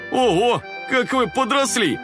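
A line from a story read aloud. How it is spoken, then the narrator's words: Exclaiming. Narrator (Russian): воскликнул дядя Кекс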